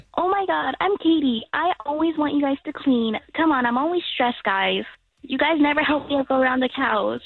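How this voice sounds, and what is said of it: Imitates another person's voice. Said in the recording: “let's do that impression of your mom”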